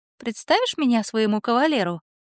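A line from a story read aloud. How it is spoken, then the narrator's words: Cooing. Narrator (Russian): проворковала она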